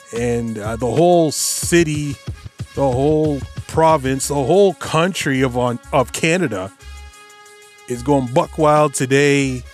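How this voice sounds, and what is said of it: Excited, buzzing voice. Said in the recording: “I'm still buzzing, as you can tell by my voice.”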